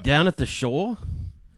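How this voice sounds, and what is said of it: Put-on old fisherman accent. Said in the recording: “What accent were you just doing there? ... Did you kind of go Boston or New Orleans on me? ... I think of like an old fisherman.”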